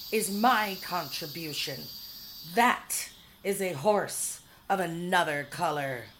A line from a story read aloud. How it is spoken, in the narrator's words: she was shrieking